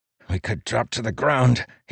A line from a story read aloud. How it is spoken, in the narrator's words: he said through gritted teeth